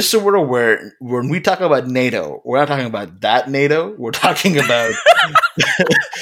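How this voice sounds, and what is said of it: Usual voice. Nothing is said of it.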